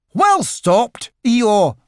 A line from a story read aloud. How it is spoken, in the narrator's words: cried Rabbit